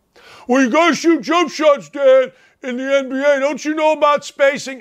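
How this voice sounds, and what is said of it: Goofy mocking dumb-guy voice. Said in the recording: “I go to my stupid voice when stupid things happen. ... stupid ... voice”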